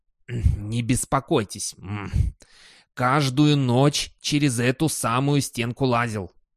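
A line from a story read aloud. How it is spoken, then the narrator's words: Offended toothless mumble. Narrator (Russian): обиженно прошамкал Думс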